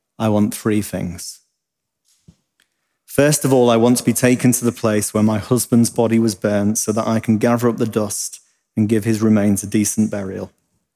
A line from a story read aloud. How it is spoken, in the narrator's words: Calmly and confidently, the dear old woman replied